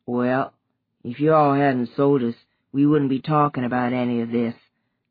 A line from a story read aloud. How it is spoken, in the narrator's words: the gravelly-voiced African-American girl said, in a lowered tone that was nonetheless audible